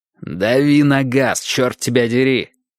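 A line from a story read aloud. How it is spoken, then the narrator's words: Growl. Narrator (Russian): прорычал Страйк Колос Джонсу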